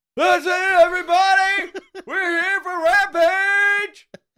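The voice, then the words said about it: Yelled impression of another person's voice. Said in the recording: “Tony Khan did his yell. ... Can you do the yell? ... You do a fantastic Tony Khan impression.”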